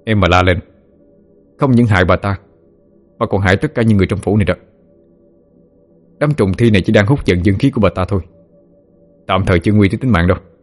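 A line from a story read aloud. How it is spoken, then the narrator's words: Stern. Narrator (Vietnamese): nghiêm giọng nói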